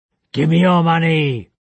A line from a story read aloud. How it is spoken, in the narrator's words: snarled the intruder